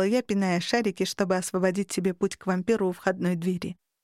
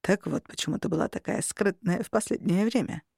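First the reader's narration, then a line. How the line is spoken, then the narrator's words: Mumbled. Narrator (Russian): пробормотал Костя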